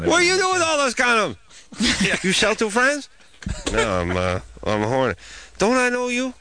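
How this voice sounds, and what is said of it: Imitated Chinese shopkeeper voice. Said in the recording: “that was was my impression of the Chinese shop teacher, but shopkeeper”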